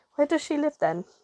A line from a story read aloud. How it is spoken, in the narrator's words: asked Meggy, stifling a yawn